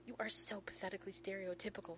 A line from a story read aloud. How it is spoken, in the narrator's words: Rodney hisses